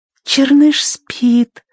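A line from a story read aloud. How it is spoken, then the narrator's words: Whisper. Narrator (Russian): прошептала она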